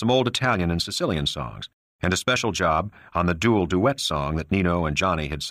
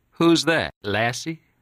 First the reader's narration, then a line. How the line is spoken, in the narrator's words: Johnny laughed